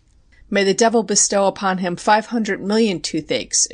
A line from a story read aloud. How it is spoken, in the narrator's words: exclaims Lapierre, for the first time showing any sign of animation